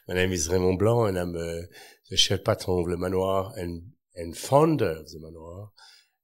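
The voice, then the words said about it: French accent. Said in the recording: “I'm a Frenchman. You can hear it through the accent.”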